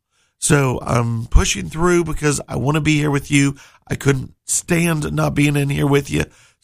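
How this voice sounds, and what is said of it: Strained, worn-out hoarse voice. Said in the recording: “my voice is kind of shot. Those 2 weekends, I couldn't talk at all.”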